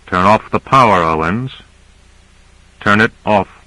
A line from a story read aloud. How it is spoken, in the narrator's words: He said quietly